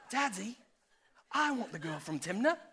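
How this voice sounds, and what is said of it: Put-on British accent, whiny child. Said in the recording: “Maybe he had a British accent.”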